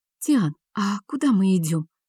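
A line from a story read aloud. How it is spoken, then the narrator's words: Breathless whispered question. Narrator (Russian): спросила шепотом, чтобы замаскировать сбившееся дыхание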